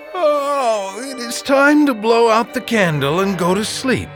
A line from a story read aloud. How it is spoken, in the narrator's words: he said with a yawn